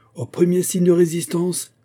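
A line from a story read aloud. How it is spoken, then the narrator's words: Shouted. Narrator (French): cria le commandant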